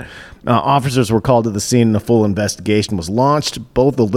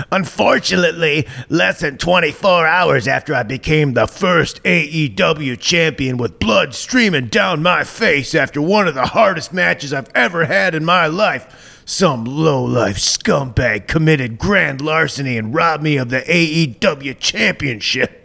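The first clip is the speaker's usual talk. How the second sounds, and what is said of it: Imitates another person's voice, badly. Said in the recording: “my bad Jericho impression”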